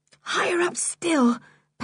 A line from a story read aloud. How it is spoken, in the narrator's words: panted George